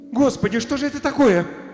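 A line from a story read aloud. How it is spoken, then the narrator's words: Sudden exclamation. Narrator (Russian): воскликнула вдруг Алиса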